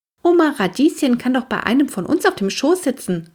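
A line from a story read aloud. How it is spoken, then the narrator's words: Called out. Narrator (German): rief Henry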